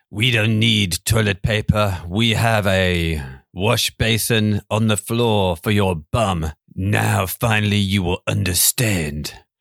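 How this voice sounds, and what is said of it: Put-on French accent. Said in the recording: “Apologies for the accent”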